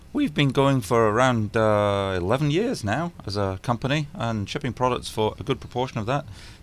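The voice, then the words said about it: Scottish accent. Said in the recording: “You can probably tell by my accent that I'm not from around here ... We're a Scottish company”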